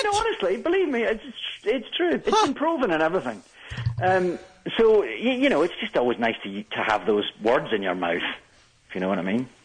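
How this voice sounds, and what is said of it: Speaks with a noticeable accent. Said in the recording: “Perhaps it's my accent.”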